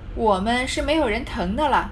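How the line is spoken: Laughing. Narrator (Chinese): 凤姐儿笑道

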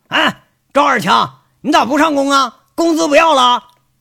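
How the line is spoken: Frustrated shout. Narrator (Chinese): 有点憋屈的赵三刀朝着一个坑里喊着

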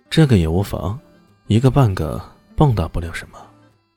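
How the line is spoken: Calm, indifferent. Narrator (Chinese): 李炫淡淡说道

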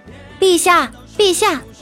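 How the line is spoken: Distant shout from above. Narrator (Chinese): 楼上有人喊

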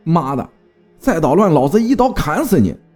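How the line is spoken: Shouting, cursing. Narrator (Chinese): 继续喊着骂着

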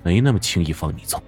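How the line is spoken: Flat, calm. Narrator (Chinese): 淡淡的

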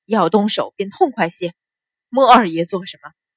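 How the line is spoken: Uneasy, frowning. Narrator (Chinese): 秦鹏不觉心里发毛，皱眉道

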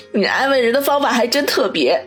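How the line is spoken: Laughing. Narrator (Chinese): 王宇笑道

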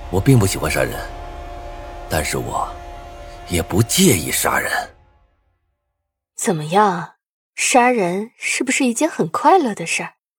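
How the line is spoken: Deep, grave. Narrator (Chinese): 沉声道

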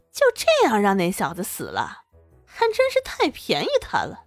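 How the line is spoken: Gloating snicker. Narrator (Chinese): 陆展元嘿嘿笑意了起来，幸灾乐祸的出声道

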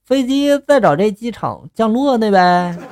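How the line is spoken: Flat, casual. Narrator (Chinese): 我淡淡的就说了一句

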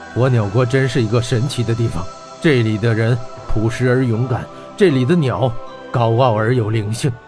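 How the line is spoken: Admiring exclamation. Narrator (Chinese): 他也感叹道

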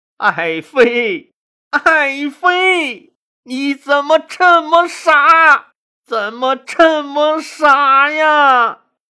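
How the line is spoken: Crying. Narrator (Chinese): 项羽抱着他哭道

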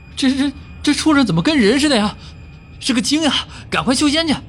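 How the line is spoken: Hurried shout. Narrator (Chinese): 老小虎赶紧喊了句

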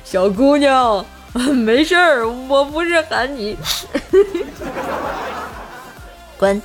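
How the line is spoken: Man laughing while speaking. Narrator (Chinese): 大叔一边笑一边说

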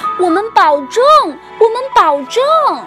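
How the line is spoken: Children shouting. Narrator (Chinese): 孩子们大叫着

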